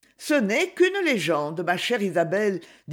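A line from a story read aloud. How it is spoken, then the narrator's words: Plain. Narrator (French): dit Lucie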